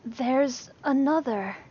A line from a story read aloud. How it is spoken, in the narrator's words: Lee breathed, wide-eyed